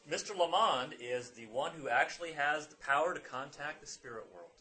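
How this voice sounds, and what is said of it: Mild put-on southern accent. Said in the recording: “I'm trying not to do too deep a southern accent.”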